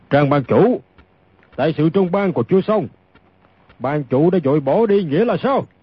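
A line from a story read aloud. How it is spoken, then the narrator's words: Deep booming voice. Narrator (Vietnamese): Một người lên giọng ồm ồm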